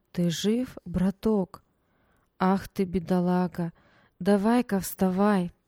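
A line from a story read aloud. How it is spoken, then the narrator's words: Soft, slightly hoarse, clear. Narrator (Russian): Мягкий, с легкой хрипотцой голос отчетливо произнес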